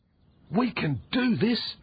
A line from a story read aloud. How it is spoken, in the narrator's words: cried Jeffrey